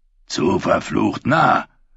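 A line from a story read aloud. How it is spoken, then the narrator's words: Growl. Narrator (German): knurrte Kapitän Lumpensalz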